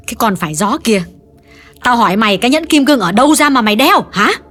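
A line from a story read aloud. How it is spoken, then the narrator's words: Harsh repeating. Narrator (Vietnamese): Bà Thiết gay gắt nhắc lại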